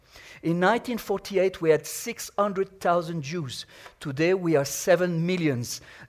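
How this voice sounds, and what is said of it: French accent. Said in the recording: “you can recognize my accent. I was born in France”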